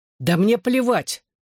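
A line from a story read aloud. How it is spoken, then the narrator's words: Sharp, angry. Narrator (Russian): резко произнес я, вспомнив синяк на лице Шаннон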